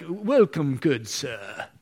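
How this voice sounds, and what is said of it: Bad put-on British butler accent. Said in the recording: “that's a horrible English accent, isn't it? ... a British butler”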